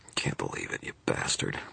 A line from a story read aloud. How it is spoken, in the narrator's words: Murphy wheezed